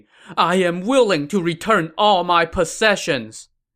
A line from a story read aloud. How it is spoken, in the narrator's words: Sun Chen now kowtowed to Sun Xiu, pleading